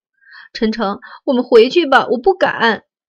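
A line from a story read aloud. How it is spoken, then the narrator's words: Despairing crying. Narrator (Chinese): 他绝望的哭了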